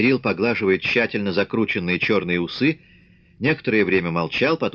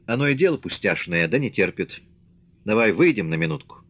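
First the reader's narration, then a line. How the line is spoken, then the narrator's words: Calm, smiling. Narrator (Russian): Мишка спокойно улыбаясь, сказал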